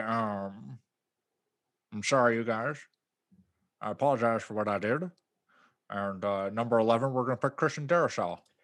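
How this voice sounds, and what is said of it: Imitates another person's voice. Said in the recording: “my most Dave Gettleman impression ... in the most Dave Gettleman way possible”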